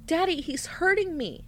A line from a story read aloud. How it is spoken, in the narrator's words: she cried out